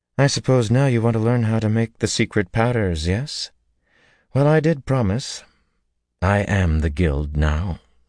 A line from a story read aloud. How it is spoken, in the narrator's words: she added bitterly